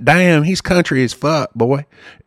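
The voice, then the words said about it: Put-on country Southern accent. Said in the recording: “I could talk country all day long”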